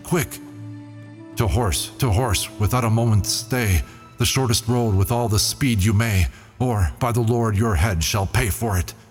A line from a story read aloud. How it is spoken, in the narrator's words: Then cried the Sultan to a soldier